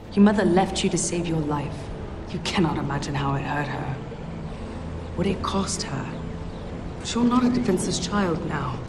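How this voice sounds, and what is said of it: British accent, jarring. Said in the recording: “Mira has a British accent ... has a British accent that is not an Aquaman movie, and it's... Jarring.”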